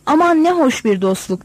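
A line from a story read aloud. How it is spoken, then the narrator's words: Plain. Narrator (Turkish): dedi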